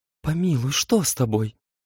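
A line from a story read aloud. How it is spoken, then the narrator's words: Whispered. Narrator (Russian): шептала ему Елена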